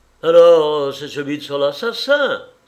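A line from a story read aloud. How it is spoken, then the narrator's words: Official exclaiming. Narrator (French): s'écria le fonctionnaire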